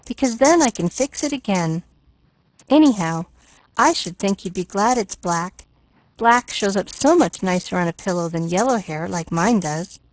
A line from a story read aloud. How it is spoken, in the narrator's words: nodded Pollyanna cheerfully